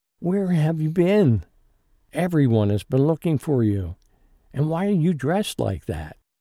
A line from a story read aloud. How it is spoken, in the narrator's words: yelled